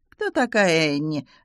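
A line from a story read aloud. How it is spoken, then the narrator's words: Lazy question. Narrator (Russian): лениво поинтересовалась Таппинс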